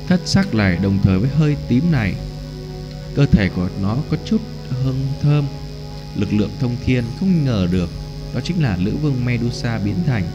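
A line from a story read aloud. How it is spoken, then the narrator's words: Glum sighing mutter. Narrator (Vietnamese): Dực lão buồn bực … thở nhẹ một hơi lẩm bẩm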